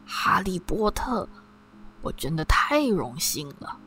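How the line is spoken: Soft-spoken old man. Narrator (Chinese): 老酒保轻声说

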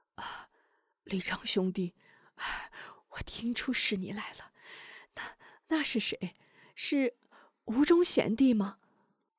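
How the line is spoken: Soft, just-awakened voice. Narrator (Chinese): 康大力这时已悄悄醒来，轻声道

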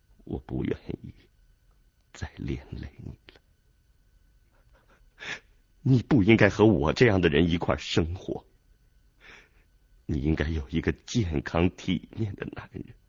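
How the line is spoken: Tearful moaning. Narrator (Chinese): 哭了一会儿，呻吟着说

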